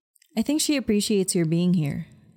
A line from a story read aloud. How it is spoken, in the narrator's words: I said